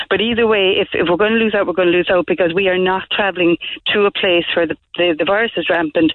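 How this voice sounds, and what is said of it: Irish accent. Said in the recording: “my Irish accent”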